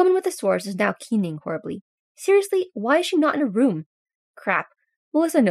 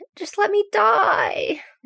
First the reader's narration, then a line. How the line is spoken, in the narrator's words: the woman with the sores whimpers